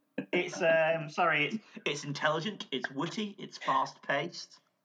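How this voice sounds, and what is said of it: Put-on posh British voice. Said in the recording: “I like how you said that in a posh voice.”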